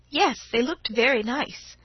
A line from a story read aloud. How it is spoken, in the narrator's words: said Laura in a small voice, and was extremely conscious of her own 13 years